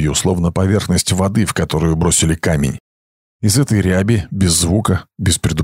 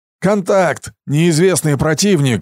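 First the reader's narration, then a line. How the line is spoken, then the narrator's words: Yelling. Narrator (Russian): заорал Трип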